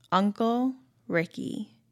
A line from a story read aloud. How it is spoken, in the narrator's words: he says slowly, smiling